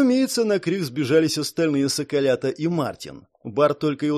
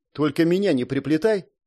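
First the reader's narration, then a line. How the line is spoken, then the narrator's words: Snorted. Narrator (Russian): фыркнула Келли Кейт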